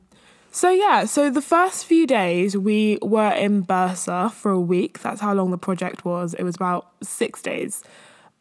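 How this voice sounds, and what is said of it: Out of breath speaking. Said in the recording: “I don't understand why I'm so out of breath... making me out of breath”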